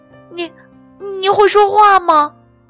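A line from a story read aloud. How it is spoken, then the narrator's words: Stammering question. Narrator (Chinese): 他结结巴巴的问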